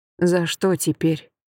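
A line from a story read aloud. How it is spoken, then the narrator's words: Mutter. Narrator (Russian): пробормотала я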